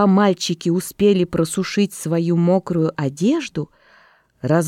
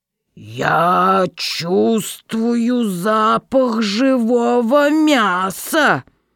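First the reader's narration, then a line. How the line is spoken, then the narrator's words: Terrible roar of ogre. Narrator (Russian): заревел людоед страшным голосом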